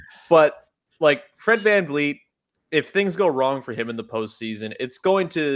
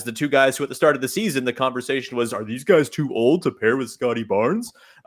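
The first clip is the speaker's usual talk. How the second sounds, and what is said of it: Voice sounding like Barney. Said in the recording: “I don't know why I sounded like Barney there ... I can do a Barney impression.”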